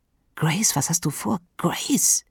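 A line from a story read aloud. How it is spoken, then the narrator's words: Quiet hiss. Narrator (German): zischte Tyler leise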